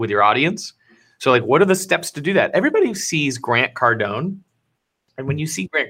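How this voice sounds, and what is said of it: Usual voice. Nothing is said of it.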